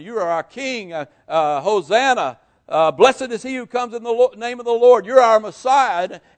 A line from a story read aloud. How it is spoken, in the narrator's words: the crowds are yelling